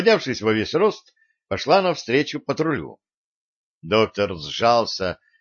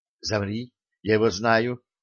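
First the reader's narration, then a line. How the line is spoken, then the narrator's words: Whisper. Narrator (Russian): прошептала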